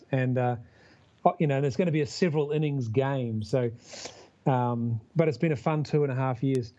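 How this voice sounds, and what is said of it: New Zealand accent. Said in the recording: “you may tell from the accent, I'm from down under, and I'm actually from New Zealand”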